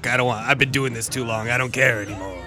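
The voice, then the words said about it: Imitates another person's voice. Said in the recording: “that's my impression of you”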